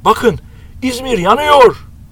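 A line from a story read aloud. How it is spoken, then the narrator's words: Shouting. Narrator (Turkish): diye bağırdı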